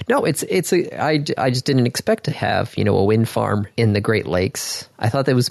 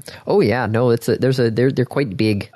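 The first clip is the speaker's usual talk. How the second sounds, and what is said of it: Northern Michigan Canadian accent. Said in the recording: “Why did you just suddenly slip into like a northern Michigan Canadian accent?”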